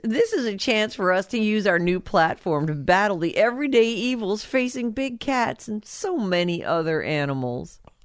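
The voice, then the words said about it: Impression of Carole Baskin. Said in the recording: “This is a statement from Carol, in case you didn't catch my impression.”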